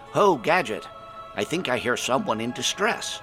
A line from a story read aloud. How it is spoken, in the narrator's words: I called out to Gadgett